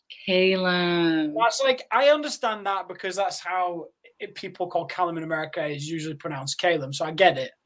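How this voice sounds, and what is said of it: Yorkshire English accent. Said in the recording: “when Americans say Yorkshire, it sounds like I'm from Lord of the Rings ... my accent”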